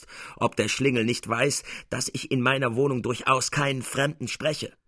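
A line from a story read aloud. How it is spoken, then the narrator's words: Angry old man shouting. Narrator (German): schrie der Alte erbost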